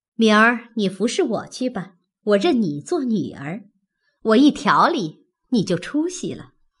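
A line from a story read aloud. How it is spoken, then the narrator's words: Smiling. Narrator (Chinese): 又向小红笑道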